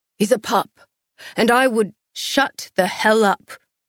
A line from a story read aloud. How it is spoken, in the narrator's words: Castiel growled